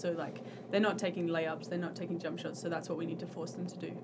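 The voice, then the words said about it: Slight Australian accent. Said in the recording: “you come to Masters from Perth, Australia ... a little bit of the accent”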